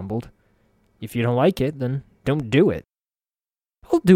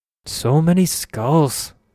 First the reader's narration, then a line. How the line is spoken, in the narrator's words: Anna sighed